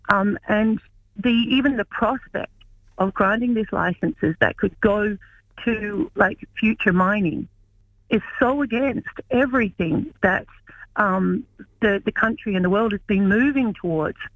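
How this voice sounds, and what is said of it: Australian accent. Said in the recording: “you can hear from my accent. I'm originally from Australia.”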